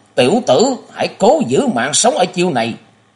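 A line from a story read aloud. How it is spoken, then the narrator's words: Angry roar, old man. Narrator (Vietnamese): Đường chủ Bàn Tiếu Quân thấy Giang Nhã Trúc tức thanh y khách thoát chưởng lực của y, lão tức giận gầm lên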